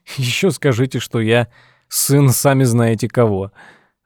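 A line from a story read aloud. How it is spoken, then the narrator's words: Laughing. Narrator (Russian): рассмеялся Тед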